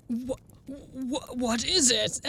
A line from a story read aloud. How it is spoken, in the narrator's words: asked Hoyne nervously